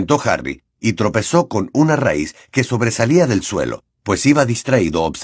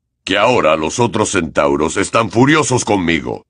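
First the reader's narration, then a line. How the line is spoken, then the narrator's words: Low-voiced reply. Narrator (Spanish): repuso Hagrid en voz baja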